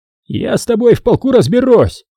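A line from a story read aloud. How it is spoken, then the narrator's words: Shouted after someone. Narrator (Russian): крикнул взводный Хасан вдогонку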